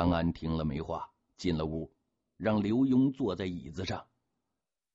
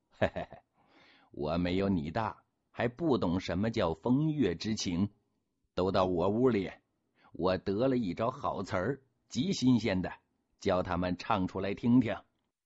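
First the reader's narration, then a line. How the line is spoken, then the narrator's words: Laughing. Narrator (Chinese): 福康安不禁一笑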